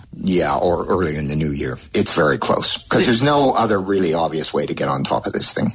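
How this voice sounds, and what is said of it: British accent. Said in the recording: “In a British accent?”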